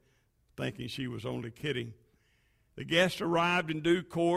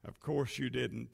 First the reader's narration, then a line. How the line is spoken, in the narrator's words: she said